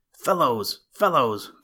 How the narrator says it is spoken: cried Gardner

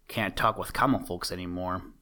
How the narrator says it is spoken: he muttered

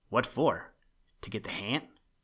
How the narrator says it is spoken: asked Hal

